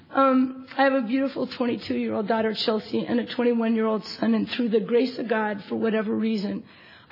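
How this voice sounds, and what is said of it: Hoarse, tearful voice. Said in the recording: “Sorry, I'm losing my voice. The crying doesn't help.”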